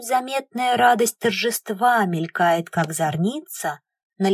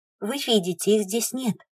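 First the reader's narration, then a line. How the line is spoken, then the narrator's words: Calm remark. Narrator (Russian): спокойно роняет Наиб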